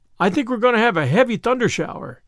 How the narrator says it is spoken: she exclaimed in dismay

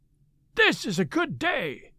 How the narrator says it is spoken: cried he

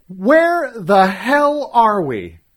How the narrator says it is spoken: I yelled

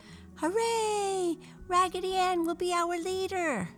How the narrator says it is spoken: all the other dolls clapped their hands together and shouted

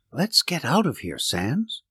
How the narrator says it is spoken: I whispered

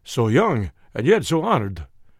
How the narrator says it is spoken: he exclaimed

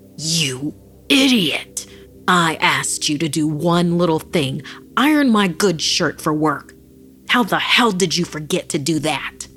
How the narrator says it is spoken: Filled with rage, Antonio found himself bellowing

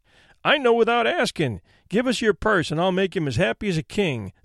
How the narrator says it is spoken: said the boy, laughing

